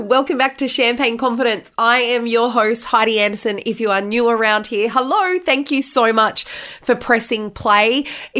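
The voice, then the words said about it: Congested, very nasal voice. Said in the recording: “my voice sounds a little bit different ... sitting at home in isolation with COVID ... I sound worse than what I feel ... I do sound extremely nasally”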